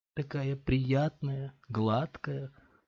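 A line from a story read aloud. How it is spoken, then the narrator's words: Muttering. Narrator (Russian): пробормотала она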